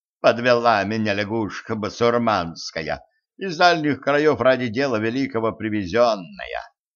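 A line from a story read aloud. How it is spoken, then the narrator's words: Heavy sigh. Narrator (Russian): Еремей тяжело вздохнул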